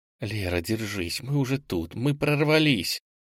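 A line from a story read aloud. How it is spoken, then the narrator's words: Involuntary whisper. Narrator (Russian): Инга невольно шептала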